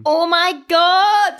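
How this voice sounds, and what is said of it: Screaming. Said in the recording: “I'm screaming again.”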